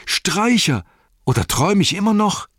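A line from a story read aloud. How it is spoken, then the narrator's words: Called out. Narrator (German): rief er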